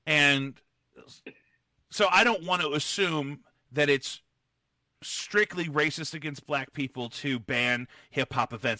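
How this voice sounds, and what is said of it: Loud, yelling voice. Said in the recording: “why I'm yelling ... I'm being intentional with my volume”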